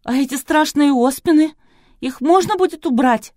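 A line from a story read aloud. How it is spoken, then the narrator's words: Pleading. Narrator (Russian): взмолилась Кристина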